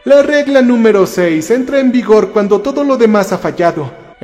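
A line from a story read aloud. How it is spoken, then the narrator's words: Almost cheerful explaining. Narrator (Spanish): explicó en un tono casi alegre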